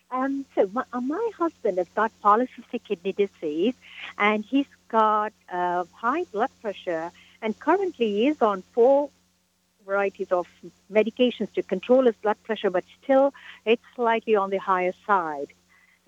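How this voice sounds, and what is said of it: Slight British accent. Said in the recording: “You have a little bit of a British accent.”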